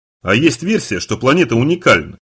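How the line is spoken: Plain. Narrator (Russian): сказал Бугер

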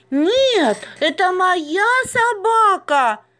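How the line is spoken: Shrieked. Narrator (Russian): завизжала Маша

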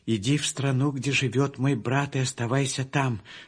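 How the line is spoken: Plain. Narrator (Russian): сказала она

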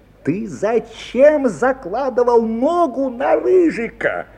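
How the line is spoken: Indignant creaky exclamation. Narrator (Russian): негодующе воскликнула воспитательница, и в лад ее скрипучему голосу

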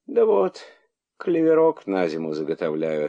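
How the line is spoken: Sighing reply. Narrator (Russian): ответила она, вздохнув

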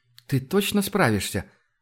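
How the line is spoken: Hopeful but unsure. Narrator (Russian): с надеждой, но неуверенно произнесла Тася

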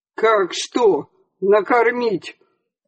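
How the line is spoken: Sudden angry snapping. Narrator (Russian): Внезапно вызверился участковый

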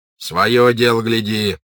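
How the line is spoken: Old man shouting. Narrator (Russian): крикнул на них старый унтер-офицер

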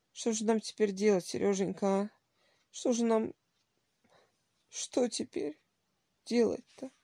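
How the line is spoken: Old man sobbing helplessly. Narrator (Russian): спрашивал старик, беспомощно всхлипывая

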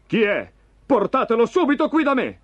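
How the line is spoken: Shouted. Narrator (Italian): gridò Saul

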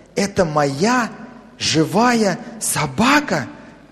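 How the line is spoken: Child's whisper. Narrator (Russian): прошептал малыш

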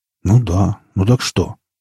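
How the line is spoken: Grumbling. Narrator (Russian): проворчал он

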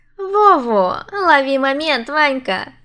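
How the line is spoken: Giggling agreement. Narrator (Russian): поддакивала я, хихикая

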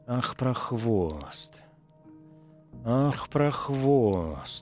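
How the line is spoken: Hoarse hiss through teeth. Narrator (Russian): Сквозь зубы сипела Пелагея Ивановна

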